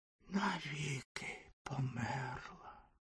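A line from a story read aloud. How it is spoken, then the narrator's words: Fire fountain's whisper. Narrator (Ukrainian): прошепотів вогняний фонтан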